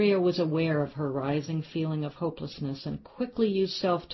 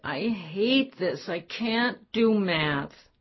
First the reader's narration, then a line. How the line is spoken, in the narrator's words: With a pathetic look that normally sent Andrea over the edge, Sophie whined